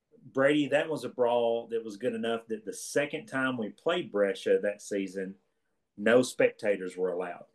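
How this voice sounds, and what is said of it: Eastern Kentucky twang. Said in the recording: “With your twang, you need to say fight. Because it's coming through like you're saying a brawl ... You Eastern Kentucky folks”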